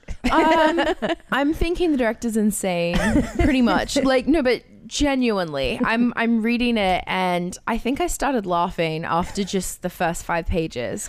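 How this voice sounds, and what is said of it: Australian accent. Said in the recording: “you're throwing me off with the Australian accent.”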